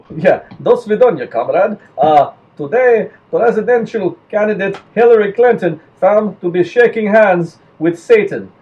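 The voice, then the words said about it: Put-on Russian accent. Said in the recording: “I gotta get my Russian accent going”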